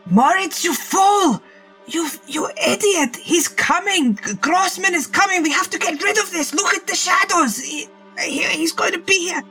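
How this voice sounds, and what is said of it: Screaming. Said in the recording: “I'm screaming”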